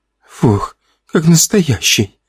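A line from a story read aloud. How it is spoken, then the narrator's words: Nervous laughing exhale. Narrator (Russian): с нервным смешком выдохнула Лена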